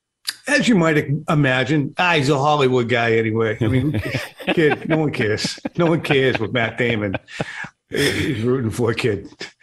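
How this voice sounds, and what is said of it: Affected regional accent. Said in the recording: “Are you using your accent there? ... Yeah, and I don't think when I affect it, it really works as well.”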